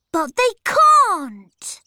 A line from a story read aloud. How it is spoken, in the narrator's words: Peter cried